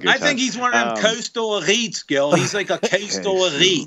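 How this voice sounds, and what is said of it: Bizarre mishmash put-on yinzer accent. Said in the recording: “That accent was not even the answer. ... That was my yinzer. ... That was more a mishmash. ... accent was so bizarre.”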